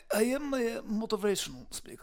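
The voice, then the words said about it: Russian or Ukrainian accent. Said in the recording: “What's that accent? ... I am from Russia. I'm from Ukraine.”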